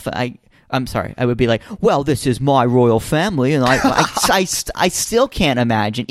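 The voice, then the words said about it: Put-on British accent. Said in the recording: “put myself in the shoes of a Brit ... Even in that accent”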